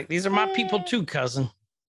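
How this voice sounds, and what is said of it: Poor attempt at Wakandan accent. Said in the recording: “you are butchering the accent ... I cannot do Wakandan ... That's also a terrible accent.”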